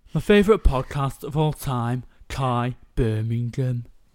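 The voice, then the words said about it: Put-on Brummie accent. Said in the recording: “Brummie, Birmingham... That was not bad... That was lovely”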